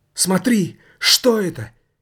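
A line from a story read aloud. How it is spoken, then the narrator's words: Hysterical shout. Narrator (Russian): истерически выкрикнул комитет добрых дел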